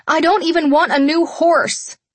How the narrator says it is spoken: I cried out, desperately

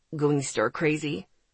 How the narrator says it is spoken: He chuckled

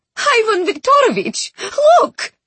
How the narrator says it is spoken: she cried

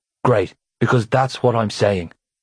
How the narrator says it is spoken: Cormac snarled

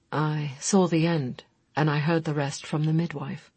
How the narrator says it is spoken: he said quietly

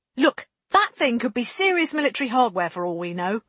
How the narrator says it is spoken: Lane snapped

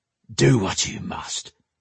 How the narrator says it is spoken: he growled

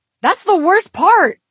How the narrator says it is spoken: he exclaimed

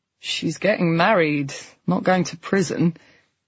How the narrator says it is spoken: Nina said dryly

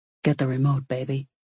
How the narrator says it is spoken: Dee muttered

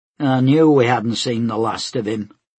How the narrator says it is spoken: Ivana grunted

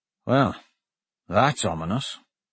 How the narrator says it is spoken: Dante muttered

